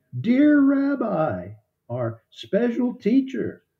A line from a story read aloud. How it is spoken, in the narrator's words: Mary first saw the risen Jesus, she called out to him